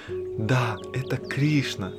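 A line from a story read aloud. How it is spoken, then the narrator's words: Whisper. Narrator (Russian): Вишака прошептала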